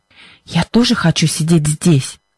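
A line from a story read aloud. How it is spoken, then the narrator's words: Whispered reply. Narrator (Russian): шепотом ответила Либби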